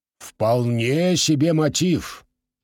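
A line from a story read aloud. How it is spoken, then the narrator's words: Grumbling. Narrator (Russian): проворчал Джулиус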